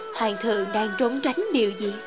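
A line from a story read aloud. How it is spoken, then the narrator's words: Smiling, summoning courage. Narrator (Vietnamese): Khẽ mỉm cười, ta lấy dũng khí hỏi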